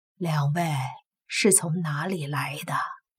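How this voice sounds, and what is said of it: Kind, gentle old man's voice. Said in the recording (Chinese): “用非常和善的声音说道”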